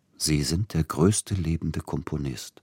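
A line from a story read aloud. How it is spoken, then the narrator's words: Gentle. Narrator (German): sprach sanft Siegfried Neugebauer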